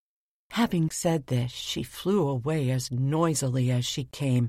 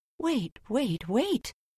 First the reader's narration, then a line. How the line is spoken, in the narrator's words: she exclaimed